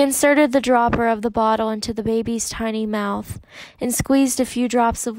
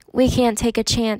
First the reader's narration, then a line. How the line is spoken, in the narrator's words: said